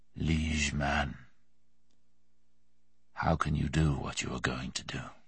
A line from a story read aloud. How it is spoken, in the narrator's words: he said softly, bleakly